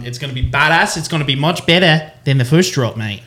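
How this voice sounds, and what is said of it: Australian accent. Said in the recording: “that's a good Australian accent”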